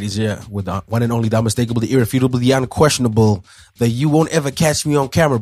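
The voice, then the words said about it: Hoarse, nearly lost voice. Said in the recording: “my voice is gone, guys. I've got COVID.”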